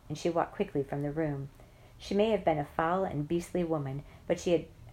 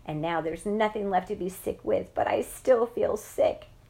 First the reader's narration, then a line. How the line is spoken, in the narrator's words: I moaned